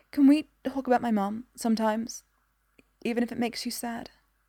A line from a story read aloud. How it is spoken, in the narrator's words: Tentatively, she asks in a whisper